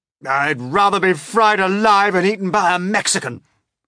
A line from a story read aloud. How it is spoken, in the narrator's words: wailed the old green grasshopper